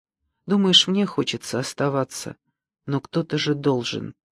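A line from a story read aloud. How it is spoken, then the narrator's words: Whispered. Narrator (Russian): Кирилка прошептал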